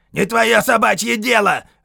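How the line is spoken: Harsh bark. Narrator (Russian): рявкнул Хейксвилл

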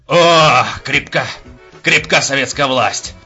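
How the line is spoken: Drunken growl. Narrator (Russian): прорычал Мышлаевский после очередной порции спиртного

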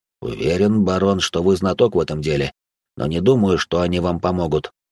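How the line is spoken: Calm. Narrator (Russian): спокойно ответил мой собеседник

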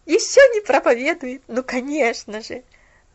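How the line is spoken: Quiet inward laughter. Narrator (Russian): Засмеялась про себя Делла

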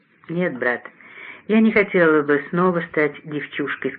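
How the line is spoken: Deep sigh. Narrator (Russian): сказала она, глубоко вздохнув

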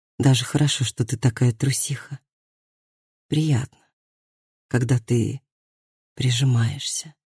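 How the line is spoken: Whisper. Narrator (Russian): прошептал он

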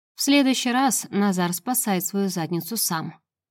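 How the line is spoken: Calm reply. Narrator (Russian): спокойно отвечает безопасник

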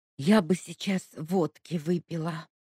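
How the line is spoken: Breathy exhale. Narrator (Russian): выдохнула Ника

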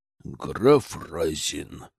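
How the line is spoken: Irritated, through teeth. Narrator (Russian): процедил Державин, сверкнув раздраженным взглядом

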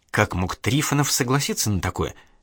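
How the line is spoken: Quiet question. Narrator (Russian): тихо спросила Инга

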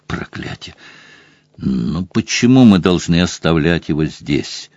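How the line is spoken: Muttered. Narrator (Russian): пробормотал Сэм

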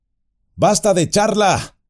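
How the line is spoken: Amused irritated shout. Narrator (Spanish): gritó Frodo, bastante recobrado ahora como para sentirse divertido e irritado a la vez

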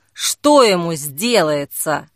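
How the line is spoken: Angry mutter. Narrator (Russian): зло пробурчала Зои

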